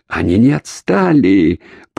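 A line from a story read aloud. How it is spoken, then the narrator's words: Groaning. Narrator (Russian): простонал Шеринг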